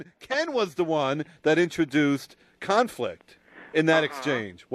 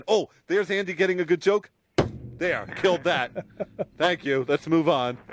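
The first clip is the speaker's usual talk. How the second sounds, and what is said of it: Mocking impression of a co-host. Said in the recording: “this is my impression of Ken”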